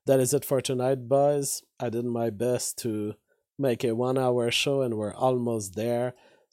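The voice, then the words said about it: Weakened, strained voice. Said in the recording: “my voice is at 50% now. I'm sure it will be fixed tomorrow.”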